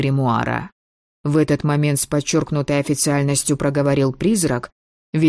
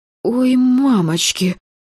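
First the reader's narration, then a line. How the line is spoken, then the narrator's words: Muffled gasp. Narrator (Russian): приглушенно выдохнула я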